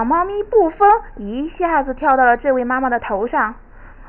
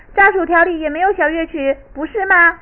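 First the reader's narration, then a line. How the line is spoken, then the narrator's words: Irritated mothers yelling. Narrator (Chinese): 烦躁不堪的妈妈们吼叫起来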